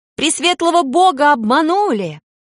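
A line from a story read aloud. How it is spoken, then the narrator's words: Defiant female shout. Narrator (Russian): Строптиво выкрикнул женский голос, голос Кинны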